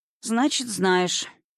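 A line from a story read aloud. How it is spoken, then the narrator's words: Sighing. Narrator (Russian): вздохнув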